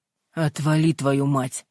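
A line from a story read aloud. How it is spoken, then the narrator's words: Growling. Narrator (Russian): прорычал Нареев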